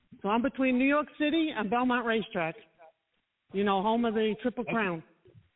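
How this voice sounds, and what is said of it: New York accent. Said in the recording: “I'm from New York, so as you can tell from my accent.”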